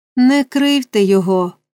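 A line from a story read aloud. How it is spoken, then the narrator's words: Gentle old man's request. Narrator (Ukrainian): лагідно попросив старий джентльмен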